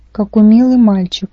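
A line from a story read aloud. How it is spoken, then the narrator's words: Mutter. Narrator (Russian): пробормотала Рэйчел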